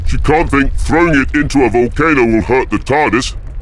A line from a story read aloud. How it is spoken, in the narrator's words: Victoria bellowed